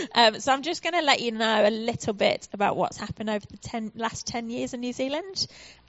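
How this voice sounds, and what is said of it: British accent. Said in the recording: “you might notice from my accent that I am, in fact, from the UK”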